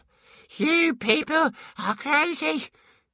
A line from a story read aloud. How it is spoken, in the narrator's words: panted